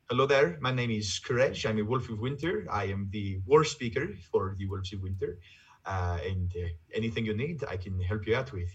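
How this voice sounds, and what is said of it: Viking-esque Norwegian-style character accent. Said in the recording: “Norwegian accent and everything. So I kind of married the two together to make an accent ... a very sort of strange marrying of these accents to make it sound Viking-esque”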